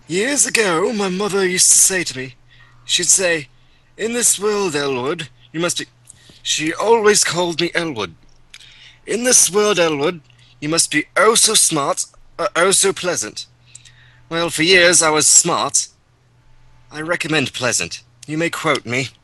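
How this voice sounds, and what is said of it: Old man character voice. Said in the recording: “An old man style voice. ... Old man voice.”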